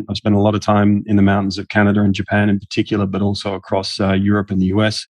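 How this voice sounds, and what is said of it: Australian English accent. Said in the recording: “I'm Australian, as you can tell by my accent.”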